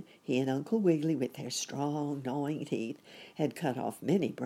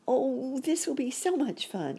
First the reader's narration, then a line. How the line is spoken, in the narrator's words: cried Sammy